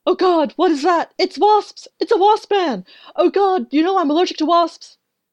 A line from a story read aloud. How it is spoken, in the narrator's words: Tara immediately started screaming